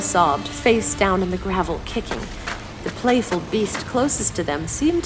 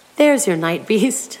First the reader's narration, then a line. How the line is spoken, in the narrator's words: Saga laughed